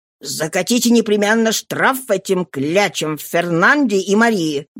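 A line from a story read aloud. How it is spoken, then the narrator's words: Furious growl. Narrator (Russian): бешено прорычал Борднаф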